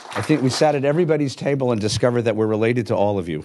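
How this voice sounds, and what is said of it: Hoarse voice from laryngitis. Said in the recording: “I'm sorry for my laryngitis”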